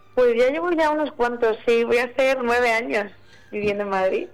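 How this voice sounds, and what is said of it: Madrid Spanish accent. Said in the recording (Spanish): “tienes acento madrileño, ¿eh? ... ya se me ha pegado un poquito ... de vez en cuando me sale por ahí el murciano”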